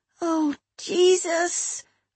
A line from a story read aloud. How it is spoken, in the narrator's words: whimpered Molly